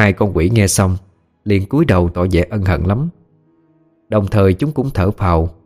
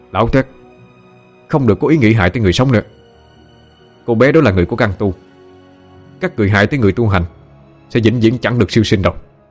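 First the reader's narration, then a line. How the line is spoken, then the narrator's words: Loud, drowning out another voice. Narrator (Vietnamese): Anh lớn tiếng lấn át giọng của nữ quỷ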